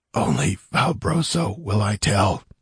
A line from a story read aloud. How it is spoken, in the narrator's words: gasped in Zingaran